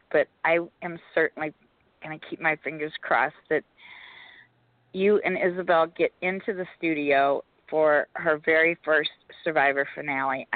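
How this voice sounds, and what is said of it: Strained, nearly lost voice. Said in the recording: “my voice is gone tonight, so it's really hard for me to speak.”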